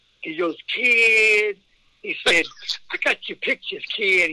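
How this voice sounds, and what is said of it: Imitates another person's voice. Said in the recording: “my best Dusty impersonation.”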